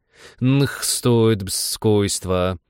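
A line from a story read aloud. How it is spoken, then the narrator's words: Creaky voice. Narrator (Russian): проскрипел он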